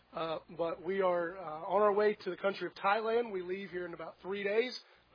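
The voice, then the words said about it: Hoarse, fading voice. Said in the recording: “I'm losing my voice a little bit.”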